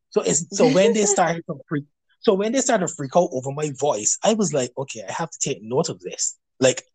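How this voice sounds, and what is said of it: Barbadian accent. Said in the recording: “you're from London and I'm from Barbados, so I've had people over the years tell me about my accent, tell me about how sexy my voice is ... this group is also all Barbadian, so they have the same. They talk like me. They sound like me.”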